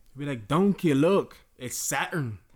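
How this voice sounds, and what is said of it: Scottish accent. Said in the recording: “That was the best Scottish accent I've heard in my life.”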